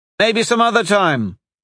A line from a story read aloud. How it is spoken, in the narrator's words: Tai shouted back over his shoulder